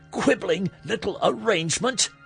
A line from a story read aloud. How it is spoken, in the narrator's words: She shrieked